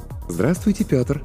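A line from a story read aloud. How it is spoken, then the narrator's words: Pleasant cooing female voice. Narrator (Russian): проворковал приятный женский голос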